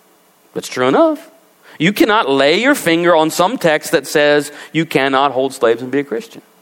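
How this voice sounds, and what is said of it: Usual voice. Nothing is said of it.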